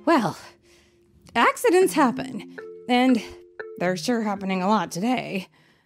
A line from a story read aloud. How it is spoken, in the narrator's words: the chief said with a sigh